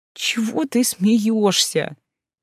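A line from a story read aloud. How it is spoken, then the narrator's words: Moaning. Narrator (Russian): простонала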